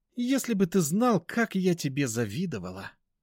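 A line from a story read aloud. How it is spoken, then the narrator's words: Sighing. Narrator (Russian): вздохнула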